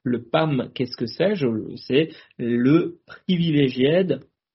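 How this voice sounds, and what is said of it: French-accented English word. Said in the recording (French): “génial mon accent”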